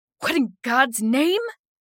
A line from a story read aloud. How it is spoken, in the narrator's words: He exclaimed angrily